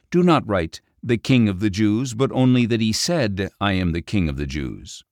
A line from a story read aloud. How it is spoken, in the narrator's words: Pilate answered